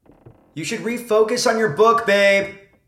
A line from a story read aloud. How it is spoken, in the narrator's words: He yelled upstairs